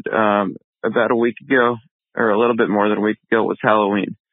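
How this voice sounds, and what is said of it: Groggy just-woke-up voice. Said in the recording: “I'm just getting up, so that's why my voice might sound kind of weird.”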